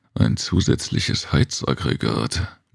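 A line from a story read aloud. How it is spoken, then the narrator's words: Murmuring. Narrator (German): murmelte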